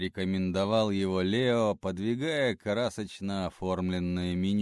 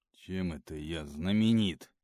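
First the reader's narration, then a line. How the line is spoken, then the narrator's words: Gruff mutter. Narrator (Russian): буркнул он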